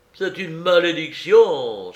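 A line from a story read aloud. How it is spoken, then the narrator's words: Exclaiming. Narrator (French): s'écria Mâtho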